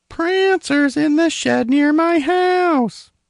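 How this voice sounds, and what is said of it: Imitates another person's voice. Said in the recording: “my Prancer impression”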